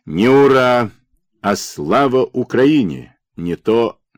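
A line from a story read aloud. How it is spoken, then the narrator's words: Stern interruption. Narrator (Russian): Крупьяк строго прервал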